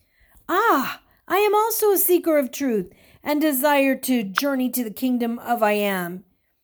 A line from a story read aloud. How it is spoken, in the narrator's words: exclaimed Stephen with an exuberance of a man who just found long-lost friends